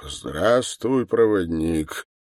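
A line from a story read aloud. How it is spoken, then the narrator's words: Muffled deep chest voice. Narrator (Russian): ответил тот глухим грудным голосом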